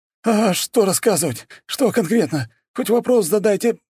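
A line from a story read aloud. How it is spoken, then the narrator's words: Strained. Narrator (Russian): выдавил он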